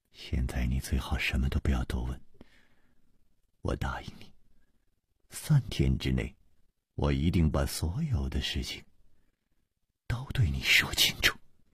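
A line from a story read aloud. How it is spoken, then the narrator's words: Soft, gentle. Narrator (Chinese): 楚留香柔声说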